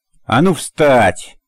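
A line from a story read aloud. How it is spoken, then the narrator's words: Shout. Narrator (Russian): выкрикнул он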